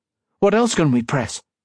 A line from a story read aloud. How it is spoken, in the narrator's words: he asked